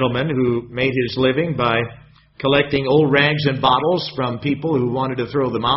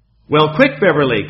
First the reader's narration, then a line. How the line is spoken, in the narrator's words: called out